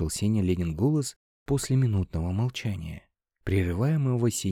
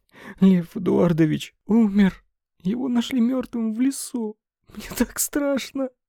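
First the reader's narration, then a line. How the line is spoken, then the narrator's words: Sobbing, frightened. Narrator (Russian): снова разрыдалась Лена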